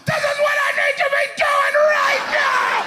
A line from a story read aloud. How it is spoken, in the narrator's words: something deep down inside of you is screaming out